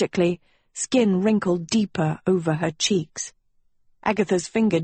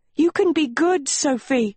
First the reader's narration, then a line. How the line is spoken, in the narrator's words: cried Agatha, thunder drowning her out